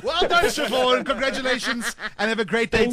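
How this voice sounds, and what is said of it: Put-on Scottish accent. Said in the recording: “I'm going to get my Scottish accent going”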